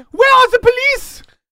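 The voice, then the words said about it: Shouting in a character voice. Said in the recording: “He's shouting for police”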